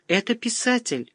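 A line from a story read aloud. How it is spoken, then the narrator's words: Joyful. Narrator (Russian): радостно сообщила Ирина Лакшми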